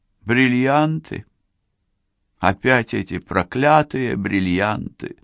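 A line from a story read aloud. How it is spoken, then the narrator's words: Sigh. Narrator (Russian): вздохнула она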